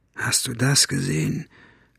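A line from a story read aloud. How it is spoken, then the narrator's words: Whisper. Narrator (German): flüsterte er dem Marder zu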